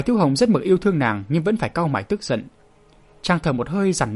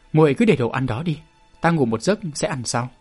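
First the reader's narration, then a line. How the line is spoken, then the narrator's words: Cold polite dismissal. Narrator (Vietnamese): chàng lạnh lùng đuổi khéo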